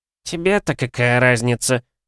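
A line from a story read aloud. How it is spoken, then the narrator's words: Snort. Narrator (Russian): фыркнул Альберт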